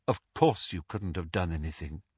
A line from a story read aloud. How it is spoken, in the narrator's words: said Lupin